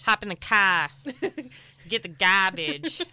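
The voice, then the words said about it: Weak attempt at Boston accent. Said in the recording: “You can talk in that accent. ... The Boston accent. ... I'm not very good at accents.”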